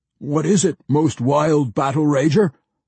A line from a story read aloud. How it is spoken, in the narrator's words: 3 of the Gutbusters yelled together